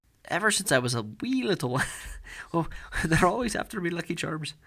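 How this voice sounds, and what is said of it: Half-baked Irish accent. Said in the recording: “Like some kind of half ass Irish accent will come out of my mouth.”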